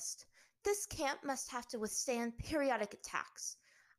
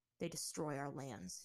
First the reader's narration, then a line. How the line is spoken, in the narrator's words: he muttered